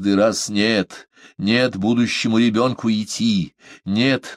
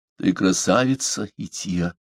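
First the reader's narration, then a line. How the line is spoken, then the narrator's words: Muffled. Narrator (Russian): глухо проговорил он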